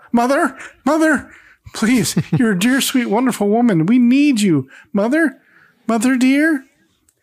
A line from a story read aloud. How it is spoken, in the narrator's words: Darren suddenly, in a panic, shouts out